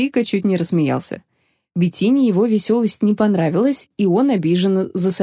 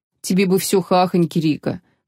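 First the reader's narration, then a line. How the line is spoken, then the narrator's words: Grumbling mutter. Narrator (Russian): пробурчал он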